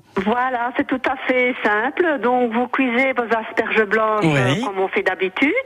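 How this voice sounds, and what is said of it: Belgian French accent. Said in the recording (French): “une Belge ... Joli accent”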